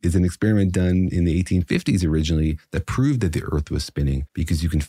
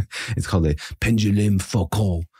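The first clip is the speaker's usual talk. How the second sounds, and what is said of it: Put-on French accent. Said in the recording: “But you have to say it with a French accent.”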